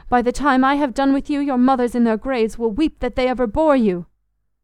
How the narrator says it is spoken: he cried, his voice growing shrill with passion

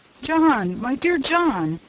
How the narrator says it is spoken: said the surgeon with convulsive sobs

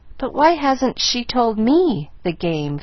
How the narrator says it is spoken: faltered Miss Polly

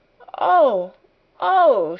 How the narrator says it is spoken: she cried woefully

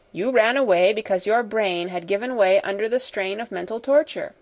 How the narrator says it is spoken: said

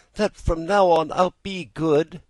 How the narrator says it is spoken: answered the Marionette, sobbing

